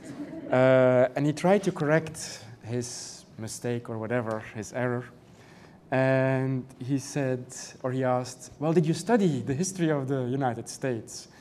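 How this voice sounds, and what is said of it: European non-native English accent. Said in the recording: “You probably hear my accent, and from the, it's not Irish ... I'm not American, that I'm European”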